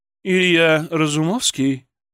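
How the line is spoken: Low velvety husky female voice. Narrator (Russian): Ее голос был низким, бархатистым, с легкой хрипотцой

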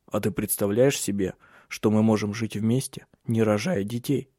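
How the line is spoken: Whisper. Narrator (Russian): прошептал он

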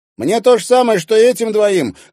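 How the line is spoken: Shouted. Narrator (Russian): крикнул Зверев Тарасу

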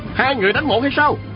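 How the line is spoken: Shouting. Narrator (Vietnamese): Sa Thiên Quảng la lên

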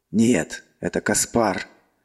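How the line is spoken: Angry growl. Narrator (Russian): зло рыкнул Эол

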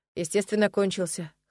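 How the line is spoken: Necromancer's snort. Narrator (Russian): хмыкнул некромант

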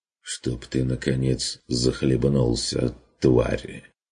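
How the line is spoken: Barely audible hoarse mutter. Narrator (Russian): Чуть слышно и охрипше пробормотала она

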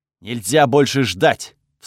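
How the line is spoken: Barked while running. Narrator (Russian): вслух рявкнул я на бегу

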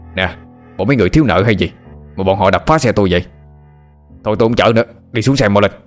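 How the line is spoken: Confused driver shouting. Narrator (Vietnamese): Ông tài xế chẳng hiểu mô tê gì, quát lớn hỏi

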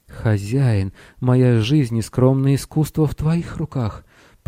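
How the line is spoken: Moaning princess. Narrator (Russian): простонала принцесса

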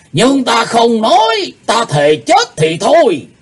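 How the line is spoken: Enraged old man's shout. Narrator (Vietnamese): Lão âm ma Lỗ Tử Đan giận tím mặt quát to lên

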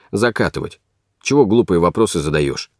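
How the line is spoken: Quiet question. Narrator (Russian): Татарский тихо спросил

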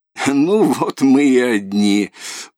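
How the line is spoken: Senseless loud laughter. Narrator (Russian): почти бессмысленно захохотала Татьяна

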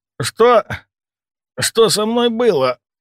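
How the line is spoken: Hoarse rasp. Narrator (Russian): прохрипел

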